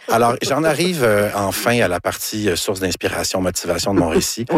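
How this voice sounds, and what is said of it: Usual voice. Nothing is said of it.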